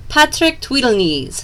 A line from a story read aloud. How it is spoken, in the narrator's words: snapped the elf